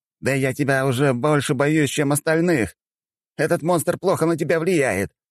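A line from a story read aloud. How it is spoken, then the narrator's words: Wailing. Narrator (Russian): взвыл Уилсон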